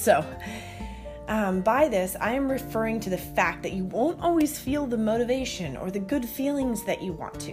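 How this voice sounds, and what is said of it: Hoarse voice from a cold. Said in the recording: “I have a bit of a cold ... so my voice is going a little awry”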